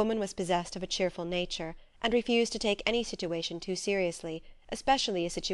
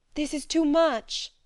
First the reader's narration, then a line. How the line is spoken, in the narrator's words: cried